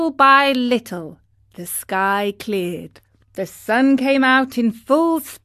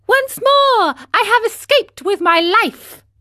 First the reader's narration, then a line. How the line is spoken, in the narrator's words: cried